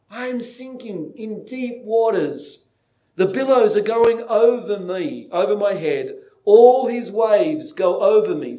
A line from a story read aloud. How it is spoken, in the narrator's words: He cried out to his good friend Hopeful, saying